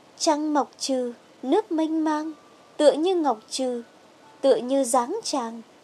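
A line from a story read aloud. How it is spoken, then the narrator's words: Gentle smiling song. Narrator (Vietnamese): Khương Trầm Ngư mỉm cười, nhẹ nhàng cất tiếng hát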